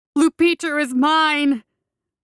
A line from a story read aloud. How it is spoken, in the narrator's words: the boy howled one last time